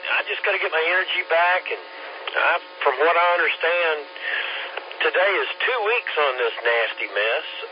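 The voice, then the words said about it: Froggy, raspy voice. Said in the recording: “you still sound a little froggy... the cough and the raspy voice will hang on”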